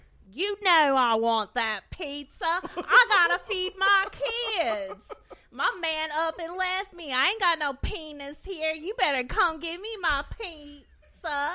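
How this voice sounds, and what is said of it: Thick put-on Southern accent. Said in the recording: “that is spot on. ... Can do the southern accent really well”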